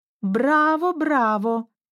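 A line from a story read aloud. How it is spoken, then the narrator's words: Exclaiming. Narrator (Russian): воскликнула Рэйчел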